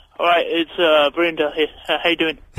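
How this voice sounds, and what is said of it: Imitates another person, sounding dim. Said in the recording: “a really funny impression of Verinda where it makes him sound even more stupid than he actually is”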